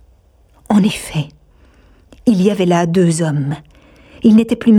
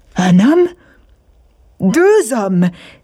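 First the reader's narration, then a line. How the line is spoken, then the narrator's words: Exclaiming. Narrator (French): s'écria Patridge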